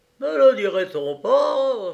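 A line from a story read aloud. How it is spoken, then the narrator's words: Dog exclaiming. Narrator (French): s'écria le chien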